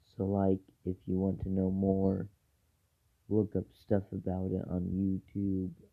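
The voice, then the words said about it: Raspy voice. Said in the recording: “my voice is getting kind of raspy, so it kind of needs a break ... my voice is so raspy”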